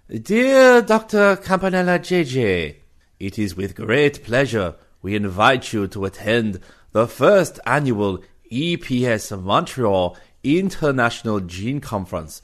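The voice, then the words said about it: Silly put-on accent. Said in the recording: “employ a silly accent”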